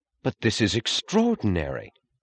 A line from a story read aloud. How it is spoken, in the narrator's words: he said in the joyous, astonished tone of announcing some news she had not expected